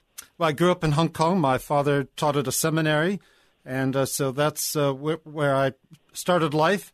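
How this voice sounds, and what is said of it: Speaks with a noticeable accent. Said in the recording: “both of them have this great accent”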